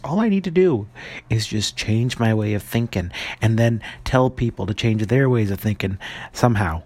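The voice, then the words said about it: Speaking very softly. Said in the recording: “I don't know why I'm talking so softly.”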